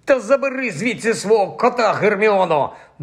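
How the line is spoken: Furious grumble. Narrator (Ukrainian): буркнув розлючений Рон

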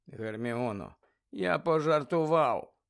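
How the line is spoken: Tired. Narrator (Ukrainian): втомлено сказав Гаррі

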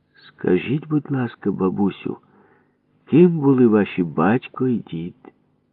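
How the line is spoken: Gentle question. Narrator (Ukrainian): Ніжно питав її опецькуватий археолог Папуша

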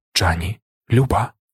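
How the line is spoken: Whispered. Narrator (Ukrainian): прошепотів

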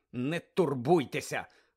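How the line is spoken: Irritated grumble. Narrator (Ukrainian): роздратовано буркнув Седрик своїм друзям

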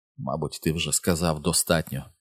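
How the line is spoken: Whispered. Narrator (Ukrainian): прошепотіла вона

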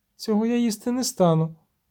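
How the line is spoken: Grumbling. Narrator (Ukrainian): буркнула

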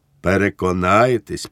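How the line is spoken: Calmer, friendly, smiling. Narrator (Ukrainian): повторив він уже спокійнішим тоном, приєднавши до цього приязний усміх

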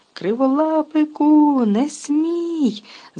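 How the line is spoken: Shrieking witch. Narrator (Ukrainian): заверещала відьма

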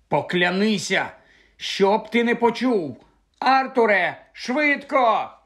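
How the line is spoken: Shouted. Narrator (Ukrainian): закричала місіс Уізлі

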